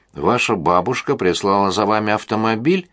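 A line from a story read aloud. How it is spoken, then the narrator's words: Matter-of-fact casual question. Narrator (Russian): спросила она совершенно будничным тоном, словно в этом факте не было ничего особенного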